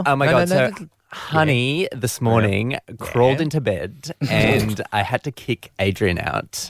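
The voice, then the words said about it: Imitates another person's voice. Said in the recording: “Ash impersonation ... you're her ... You're being her.”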